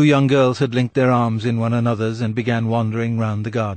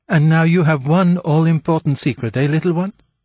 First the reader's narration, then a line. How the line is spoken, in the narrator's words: said Marguerite merrily